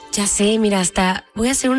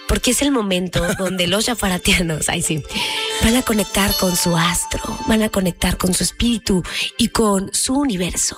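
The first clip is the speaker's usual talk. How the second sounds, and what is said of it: Deliberately calmer, softer voice. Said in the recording (Spanish): “hacer una voz un poquito mucho más tranquila”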